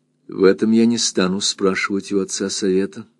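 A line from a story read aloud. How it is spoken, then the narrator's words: Calm and firm. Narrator (Russian): сказала она спокойно и твердо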